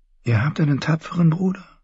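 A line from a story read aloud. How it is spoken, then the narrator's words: Whispering. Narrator (German): flüsterte ihr zu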